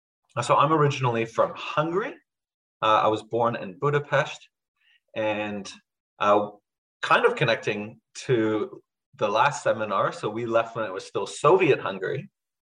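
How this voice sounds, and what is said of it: North American-sounding accent. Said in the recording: “That's where I picked up this accent. ... who sounds like an American?”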